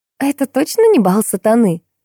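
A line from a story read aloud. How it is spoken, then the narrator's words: Laughing. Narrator (Russian): рассмеялась Биби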